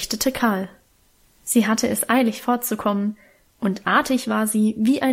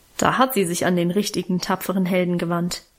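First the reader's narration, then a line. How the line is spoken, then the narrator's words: Mocking. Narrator (German): meinte ich spöttisch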